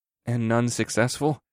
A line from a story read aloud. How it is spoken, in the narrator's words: I muttered